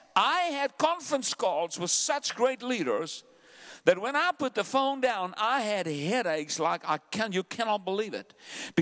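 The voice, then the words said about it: South African accent. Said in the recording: “I'm a South African. I have an accent”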